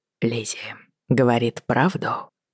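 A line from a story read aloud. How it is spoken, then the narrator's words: Quiet question. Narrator (Russian): тихо спросил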